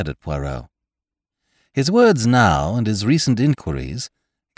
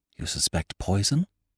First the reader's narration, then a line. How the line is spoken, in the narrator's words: I breathed